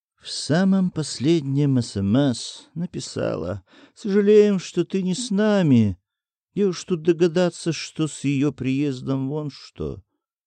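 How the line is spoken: Sighing. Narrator (Russian): Андрей вздохнул

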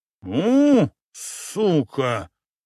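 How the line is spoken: Hoarse wheeze. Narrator (Russian): прохрипела шатающаяся фигура Чебурашки

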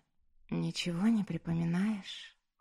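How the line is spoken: Hoarse female question. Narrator (Russian): хрипло спросила она

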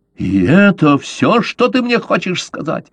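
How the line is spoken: Shouted. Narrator (Russian): закричал Каузак

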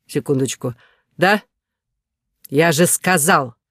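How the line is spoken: Angry bark. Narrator (Russian): Вспылив буквально с первой секунды разговора, рявкнул

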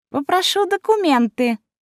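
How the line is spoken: Thin, high voice. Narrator (Russian): сказал тонким голосом

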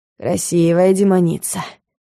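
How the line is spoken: Wheezy rasp. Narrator (Russian): просипел

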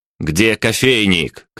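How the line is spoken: Shouted across a table. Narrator (Russian): крикнул я через весь стол прислуги

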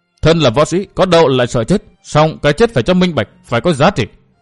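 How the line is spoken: Stern, emphatic. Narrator (Vietnamese): Kỳ Hiểu Phong gằn giọng nói tiếp

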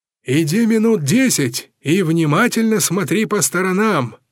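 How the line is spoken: Father shouting. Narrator (Russian): крикнул отец

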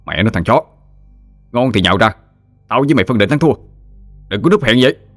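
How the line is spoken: Irritated shout. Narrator (Vietnamese): Anh bực dọc quát

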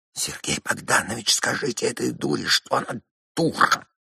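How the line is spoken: Furious whisper. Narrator (Russian): слышен был яростный шепот Лизы

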